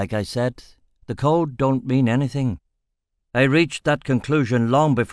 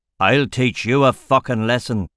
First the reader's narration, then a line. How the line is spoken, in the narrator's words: Boren bellowed